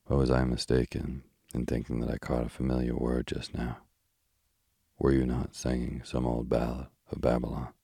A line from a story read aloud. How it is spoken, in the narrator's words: he said, in that gentle, polite, weary voice of his